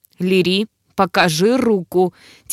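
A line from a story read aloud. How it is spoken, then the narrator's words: Demon growling. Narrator (Russian): Теперь демон рычал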